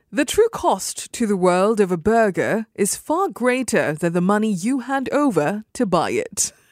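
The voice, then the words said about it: Put-on British accent. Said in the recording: “I'm going to try to do this with a British accent so it sounds different”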